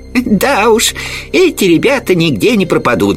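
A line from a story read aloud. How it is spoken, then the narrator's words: Laughing. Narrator (Russian): засмеялся Колобок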